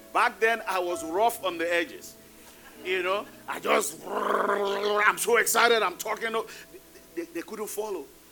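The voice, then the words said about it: Thick accent. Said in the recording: “my accent is still thick”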